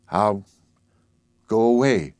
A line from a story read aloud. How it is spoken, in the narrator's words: he said slowly